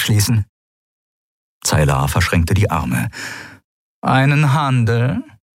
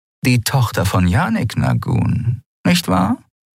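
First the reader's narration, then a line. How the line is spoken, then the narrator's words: Purring. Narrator (German): schnurrte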